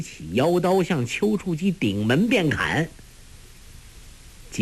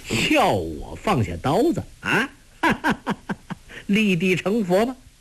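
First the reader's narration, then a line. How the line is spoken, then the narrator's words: Loud laughing shout. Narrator (Chinese): 段天德哈哈大笑叫道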